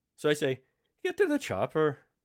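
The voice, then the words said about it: Attempted Scottish accent sounding Irish. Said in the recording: “that sounded Irish ... That's Irish”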